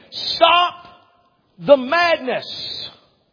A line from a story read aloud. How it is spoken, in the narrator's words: He is screaming